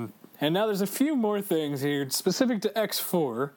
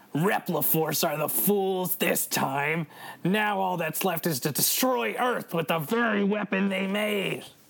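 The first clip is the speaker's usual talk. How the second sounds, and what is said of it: Good impression of a villain character. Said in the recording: “which I'll read in his tone of voice ... That's a good impression right there.”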